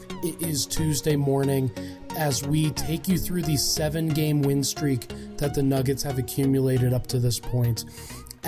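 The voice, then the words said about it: Hoarse, worn-out sick voice. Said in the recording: “I am sick. My voice is completely shot”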